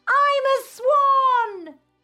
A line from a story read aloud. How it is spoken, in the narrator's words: He shouts